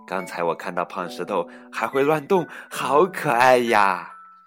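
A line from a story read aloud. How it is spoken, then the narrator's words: Smiling. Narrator (Chinese): 杨阿姨笑着说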